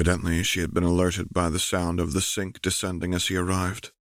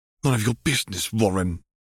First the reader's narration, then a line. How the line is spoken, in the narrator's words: Tom snapped irritably